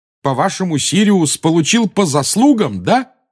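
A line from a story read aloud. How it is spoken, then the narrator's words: Yelling. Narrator (Russian): завопил Гарри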